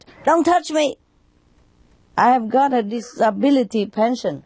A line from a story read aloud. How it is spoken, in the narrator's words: the crippled man shouted